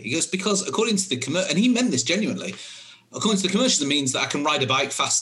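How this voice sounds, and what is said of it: British accent. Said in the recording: “in the UK, where you can probably tell from my accent, that's where I'm from originally”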